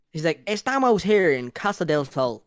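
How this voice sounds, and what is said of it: Imitates another person's voice. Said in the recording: “it's the fucking accent.”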